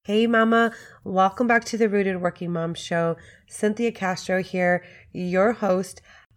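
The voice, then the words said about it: Squeaky voice cutting in and out. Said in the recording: “my voice has been coming in and out today ... a little grace over my voice today, a little squeaky”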